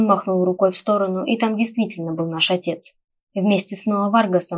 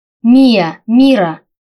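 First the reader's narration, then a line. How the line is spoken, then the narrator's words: Exclaimed. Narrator (Russian): воскликнул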